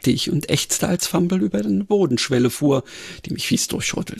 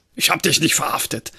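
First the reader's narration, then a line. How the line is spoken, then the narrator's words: Grunting assertion. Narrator (German): behauptete er grunzend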